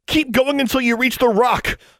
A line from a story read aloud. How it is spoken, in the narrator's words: she shouted